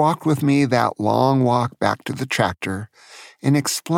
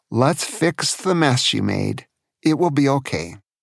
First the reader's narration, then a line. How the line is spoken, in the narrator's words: He just said with a sigh